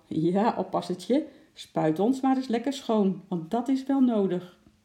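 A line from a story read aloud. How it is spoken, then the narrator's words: Cheerful elephant trumpeting. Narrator (Dutch): trompetterde vrolijk, alsof hij zeggen wou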